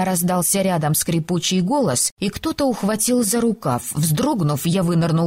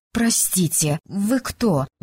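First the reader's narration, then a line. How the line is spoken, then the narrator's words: Uncertain question. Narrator (Russian): неуверенно спросила я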